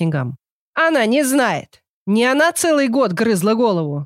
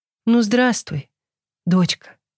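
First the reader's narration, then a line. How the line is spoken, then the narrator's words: Affectionate old woman. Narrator (Russian): сказала бабка ласково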